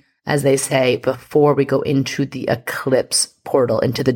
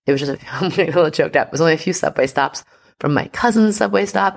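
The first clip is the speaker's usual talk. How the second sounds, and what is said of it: Choked up, emotional voice. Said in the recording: “I'm getting a little choked up.”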